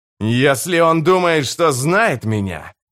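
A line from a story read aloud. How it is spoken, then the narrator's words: Growled. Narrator (Russian): прорычал Карса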